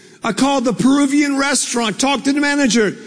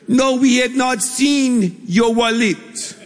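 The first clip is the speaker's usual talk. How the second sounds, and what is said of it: Put-on Peruvian accent. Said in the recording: “That's my best Peruvian accent. I'm not sure how they really talk”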